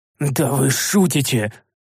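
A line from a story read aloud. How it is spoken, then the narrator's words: Growl of helpless rage. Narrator (Russian): В бессильной злобе зарычал я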